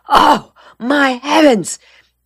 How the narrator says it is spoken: Della Street exclaimed, suddenly remembering

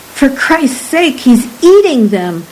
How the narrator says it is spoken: Murano cried

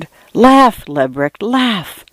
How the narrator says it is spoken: I whispered

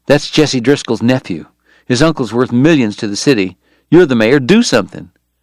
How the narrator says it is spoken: Bob Wright said, his voice low and urgent

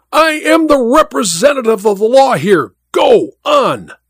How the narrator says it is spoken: The judge cried out at him in a terrible voice

